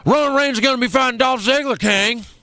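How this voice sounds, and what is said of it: Imitates a wrestling announcer's voice. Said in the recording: “I think I can do a Jim Ross voice ... Announce Roman Reigns ... That was awful.”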